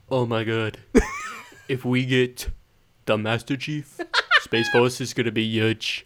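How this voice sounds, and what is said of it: Imitates another person's voice, poorly. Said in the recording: “Is that your best Donald Trump accent? ... That was probably pretty bad”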